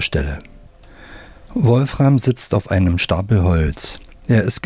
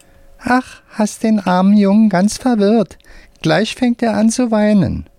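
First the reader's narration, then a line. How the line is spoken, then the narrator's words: Squeaky voice. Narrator (German): sagt mit piepsiger Stimme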